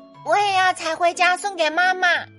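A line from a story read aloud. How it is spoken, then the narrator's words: Loud voice. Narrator (Chinese): 小灰鼠也大声地说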